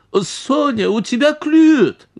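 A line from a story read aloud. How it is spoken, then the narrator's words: Shrill squeal. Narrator (Russian): взвизгнула тетя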